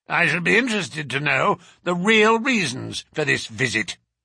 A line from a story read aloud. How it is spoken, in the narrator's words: said in a rasping voice